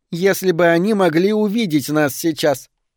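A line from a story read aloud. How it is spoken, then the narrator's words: Giggling. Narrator (Russian): хихикнула Рогерс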